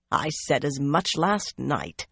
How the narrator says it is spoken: Cerulea growled

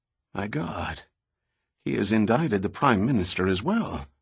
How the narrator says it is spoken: the commissioner muttered

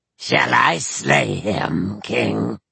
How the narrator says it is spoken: said in a gloating voice

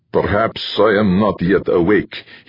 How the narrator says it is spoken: he said in the thickest Slavic accent he could manage

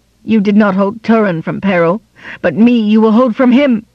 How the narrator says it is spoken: cried Morwen

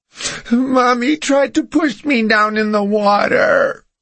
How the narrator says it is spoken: she said between sobs in the baby voice she only used when she was upset

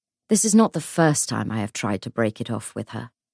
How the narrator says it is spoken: she said

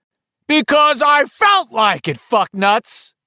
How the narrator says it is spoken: Henry roared back

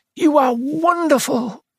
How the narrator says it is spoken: he cried

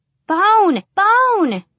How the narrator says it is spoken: Reese screamed

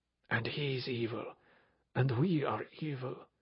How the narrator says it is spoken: whispered Armand

